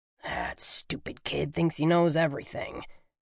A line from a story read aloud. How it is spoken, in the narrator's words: Jerome muttered